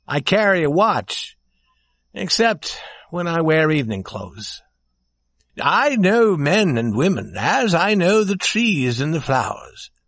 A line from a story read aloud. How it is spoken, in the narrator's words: said the prince warmly and proudly